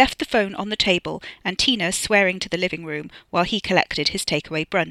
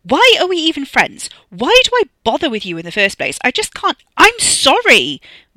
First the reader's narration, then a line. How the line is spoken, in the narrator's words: Wes yelled at the phone, at the living room, at the world in general